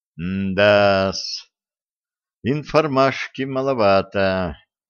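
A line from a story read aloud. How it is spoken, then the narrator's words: Dejected sigh. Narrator (Russian): удрученно вздохнул сплетник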